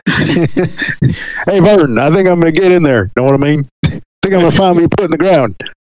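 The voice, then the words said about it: Goofy cartoonish character voice. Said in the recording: “doing the Ernest voice”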